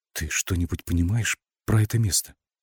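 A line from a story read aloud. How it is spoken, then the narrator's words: Whispered question. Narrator (Russian): шепотом спросила Александра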